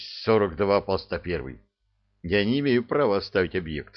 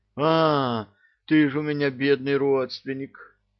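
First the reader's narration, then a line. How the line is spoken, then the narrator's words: Chuckling. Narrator (Russian): хохотнул Крутов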